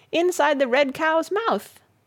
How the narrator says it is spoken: he shouted

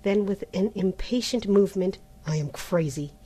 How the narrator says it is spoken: he muttered

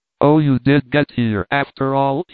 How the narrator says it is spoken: he exclaimed

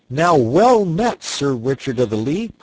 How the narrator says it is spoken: cried he

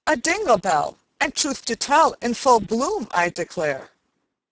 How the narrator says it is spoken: Mary exclaimed

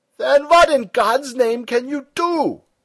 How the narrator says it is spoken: shouted Stumm

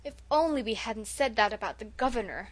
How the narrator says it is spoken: moaned Felicity

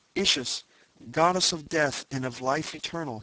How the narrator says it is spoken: he cried

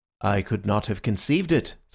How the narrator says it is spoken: said Syme gravely

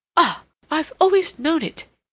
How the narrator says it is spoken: he cried

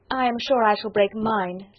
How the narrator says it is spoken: said Lydia

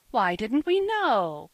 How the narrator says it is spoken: cried the children at last

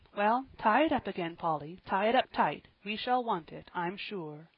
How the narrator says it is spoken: sighing at her little sick girl

